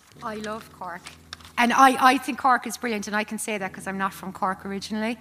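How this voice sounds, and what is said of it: Irish Cork accent. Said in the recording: “I have a Cork accent”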